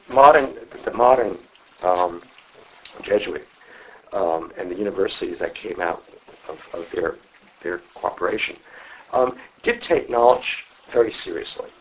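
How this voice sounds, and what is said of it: New York accent. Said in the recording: “I'm a New York Province Jesuit, which you can probably recognize by my accent.”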